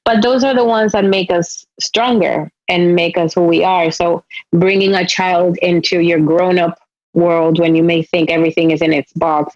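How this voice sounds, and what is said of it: Spanish-accented English. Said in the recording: “With my sort of Spanish accent.”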